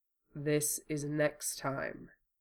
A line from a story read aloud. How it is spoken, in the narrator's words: leaned over till his breath brushed the caramel-colored skin below Wufei's ear, and murmured